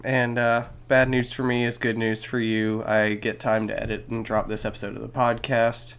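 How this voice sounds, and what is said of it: Sick-sounding voice. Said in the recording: “tell by my voice, but I am just a little bit sick today”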